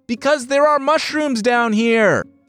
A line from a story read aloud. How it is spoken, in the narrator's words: cried back